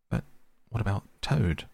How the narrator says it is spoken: asked Mole anxiously

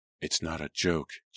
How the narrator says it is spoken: Jillian murmured with more bitterness than fear

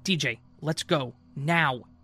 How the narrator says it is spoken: raised my voice and said

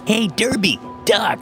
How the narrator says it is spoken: a little kid yelled

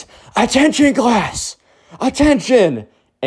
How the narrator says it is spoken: Ben screams

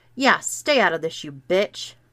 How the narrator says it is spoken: I snapped at her

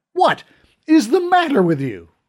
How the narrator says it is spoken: shouted

